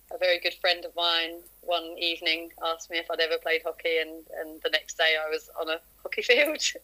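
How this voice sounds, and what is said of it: Southern English accent. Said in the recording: “originally I'm from sort of down south, as you can probably tell from my accent”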